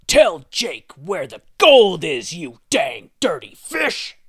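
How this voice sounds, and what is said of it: Strained put-on deep voice. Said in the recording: “not meant to try and have a deep voice”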